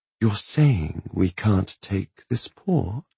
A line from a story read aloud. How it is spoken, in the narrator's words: She asked, voice pitched into a soft, intent murmur